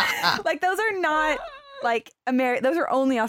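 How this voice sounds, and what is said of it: Usual voice. Nothing is said of it.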